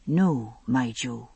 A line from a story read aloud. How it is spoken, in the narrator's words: he said softly